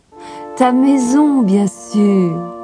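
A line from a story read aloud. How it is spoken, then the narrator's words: Laughing exclamation. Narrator (French): s'écria Clara en riant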